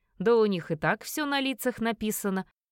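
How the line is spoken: Short laugh. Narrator (Russian): хохотнул Эдвин

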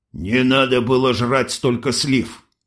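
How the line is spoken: Smirking over radio. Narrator (Russian): хмыкнули из рации

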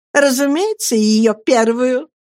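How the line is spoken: Laughing. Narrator (Russian): рассмеялась Агнесса

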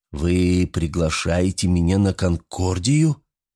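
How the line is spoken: Calm, slightly surprised question. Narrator (Russian): Спокойно, но с ноткой удивления спросил ученый

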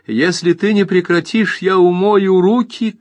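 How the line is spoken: Shouting. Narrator (Russian): крикнула

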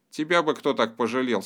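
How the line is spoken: Angry declaration. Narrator (Russian): сердито заявила Гудрун

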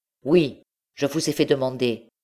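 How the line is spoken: Exclaimed. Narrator (French): s'écria M

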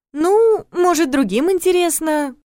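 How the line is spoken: Insisting uncertainly. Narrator (Russian): Неуверенно продолжила я настаивать

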